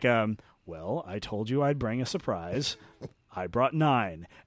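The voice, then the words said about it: Slow, enunciated Joss Whedon impression. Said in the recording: “pretty good Joss Whedon impression... talk slowly and enunciate everything as your voice fluctuates... a very slight lisp”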